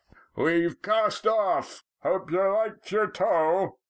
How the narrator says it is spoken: Roaring Jack's voice came across the water

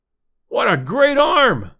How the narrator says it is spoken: exclaimed, deep in my throat

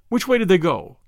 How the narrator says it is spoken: snapped Valentine

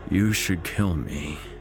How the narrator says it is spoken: Terence sighed

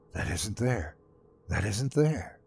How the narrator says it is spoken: whispering to myself

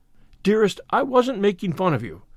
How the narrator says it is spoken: cried Anne repentantly

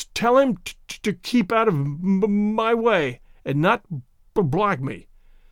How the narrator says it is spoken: stuttered Tay-Tay Mulder

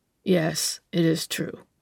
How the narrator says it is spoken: came the answer in a low, hoarse tone

